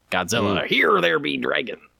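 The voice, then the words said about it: Pirate voice. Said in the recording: “you got to kind of say it like a pirate ... that pirate impression”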